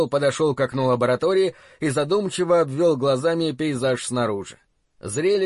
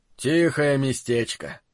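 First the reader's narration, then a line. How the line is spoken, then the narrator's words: Sighing. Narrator (Russian): вздохнул Холл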